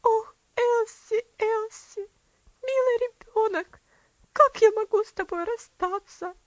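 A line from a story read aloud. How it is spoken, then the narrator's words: Choked with sobs. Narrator (Russian): все тело его сотрясалось от внутренних рыданий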